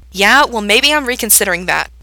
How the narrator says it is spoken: Gerard snaps

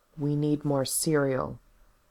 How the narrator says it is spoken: he said in a careful voice

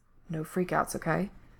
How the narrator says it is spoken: He whispers against Ray's lips

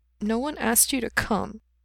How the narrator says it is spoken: he muttered

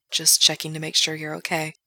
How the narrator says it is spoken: Gerard murmurs

